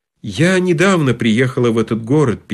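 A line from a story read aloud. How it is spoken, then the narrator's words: Sad lady. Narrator (Russian): печально сказала дама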